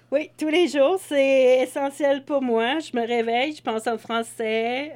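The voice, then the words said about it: Strong English accent in French. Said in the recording (French): “j'ai un gros accent anglais quand je parle”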